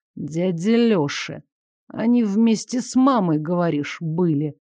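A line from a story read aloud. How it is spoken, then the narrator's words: Menacing drawl. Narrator (Russian): с угрозой протянул Игорь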